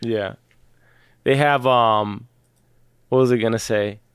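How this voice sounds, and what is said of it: Usual voice. Nothing is said of it.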